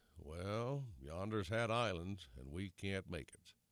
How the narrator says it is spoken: somebody said with a doomful sigh

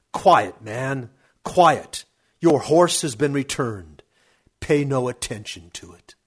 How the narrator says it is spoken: My uncle Khosrov became irritated and shouted

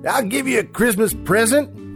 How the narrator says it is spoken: he yelled shrilly

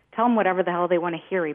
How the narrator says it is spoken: he barked

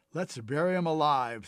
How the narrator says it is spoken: laughed

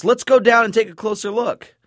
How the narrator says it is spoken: Paul shouts

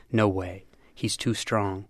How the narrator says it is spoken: One of Kevin's teammates murmuring

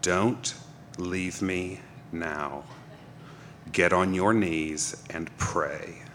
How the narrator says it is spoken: she said in a cold, steely voice

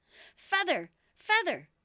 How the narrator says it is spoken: the sheep cried again

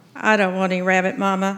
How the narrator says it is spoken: I mumbled

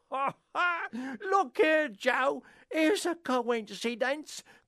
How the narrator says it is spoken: cried the charwoman

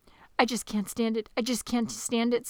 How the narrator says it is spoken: said Flute

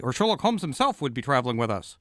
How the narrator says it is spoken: Watson denied quickly

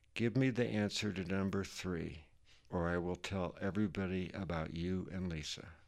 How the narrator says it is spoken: she whispered at me

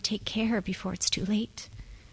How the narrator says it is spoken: she would have liked to say, whispering

